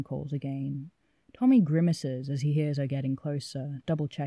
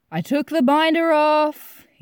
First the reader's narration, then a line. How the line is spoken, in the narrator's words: he bellows